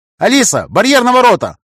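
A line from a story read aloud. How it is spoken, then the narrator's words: Shout. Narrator (Russian): крикнул я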